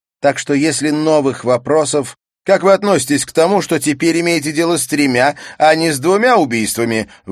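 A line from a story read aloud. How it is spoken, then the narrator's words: Distant shout. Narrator (Russian): выкрикнул журналист из дальнего конца зала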